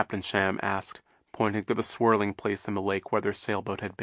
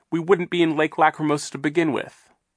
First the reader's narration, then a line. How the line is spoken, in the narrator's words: Violet said fiercely